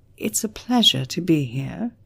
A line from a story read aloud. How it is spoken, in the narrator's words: she said calmly